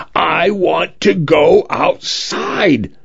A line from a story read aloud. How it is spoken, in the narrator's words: screamed over and over again until his voice broke, until he was red in the face